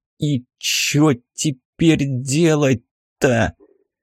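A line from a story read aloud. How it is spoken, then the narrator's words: Groan. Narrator (Russian): простонал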